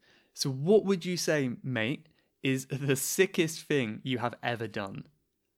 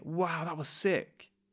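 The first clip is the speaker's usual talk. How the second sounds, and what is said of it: Impressed, enthusiastic tone. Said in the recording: “and you sound like you're impressed ... judging by my tone of voice”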